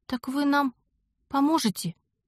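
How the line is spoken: Timid question. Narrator (Russian): робко уточнила я

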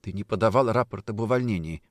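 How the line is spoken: Quiet. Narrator (Russian): сказала она тихо

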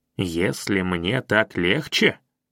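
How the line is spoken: Angry repetition. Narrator (Russian): сердито повторил я

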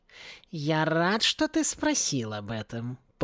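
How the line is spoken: Purring, cat. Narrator (Russian): промурлыкал кот

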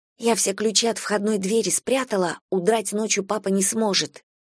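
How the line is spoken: Whispered. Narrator (Russian): Настя шепнула мне

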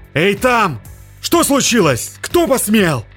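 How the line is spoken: Shouted. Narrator (Russian): закричал капитан

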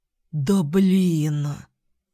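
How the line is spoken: Heavy sigh. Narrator (Russian): Вздохнул он тяжело

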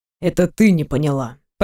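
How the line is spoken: Quiet speech. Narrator (Russian): Произносит тихо

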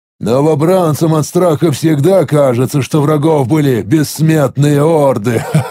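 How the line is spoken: Gurgling laugh. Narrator (Russian): Клокочущим голосом рассмеялся я

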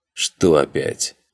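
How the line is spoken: Growl. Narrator (Russian): рыкнул Астарот

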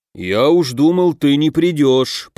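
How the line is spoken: Bear's grumble. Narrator (Russian): проворчал медведь

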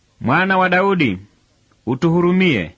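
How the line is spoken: Two blind men shouting. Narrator (Swahili): vipofu wawili wakipiga kelele

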